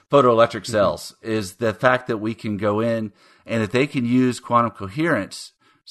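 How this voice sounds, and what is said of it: Texas accent. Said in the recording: “my Texas accent coming in”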